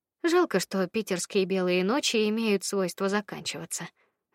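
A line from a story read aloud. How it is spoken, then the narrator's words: Sighing. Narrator (Russian): вздохнула я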